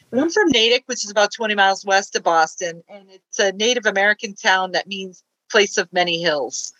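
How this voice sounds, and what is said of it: Slight Boston accent. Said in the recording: “Boston accent... there's the accent right there... Some Boston that drops in there”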